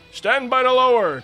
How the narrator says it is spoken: exclaimed the captain

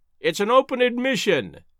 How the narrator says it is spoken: he cried

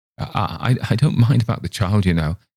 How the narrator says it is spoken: he said in an excited voice

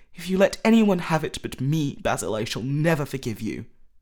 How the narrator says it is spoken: cried Dorian Gray

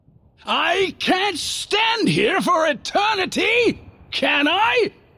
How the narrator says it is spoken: snapped

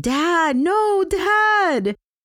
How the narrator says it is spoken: Sally's daughter yelling

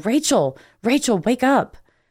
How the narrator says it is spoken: would literally have to shake me and yell

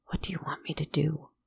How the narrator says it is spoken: He whispered

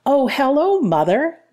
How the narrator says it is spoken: exclaimed

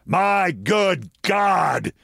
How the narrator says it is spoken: he bellows

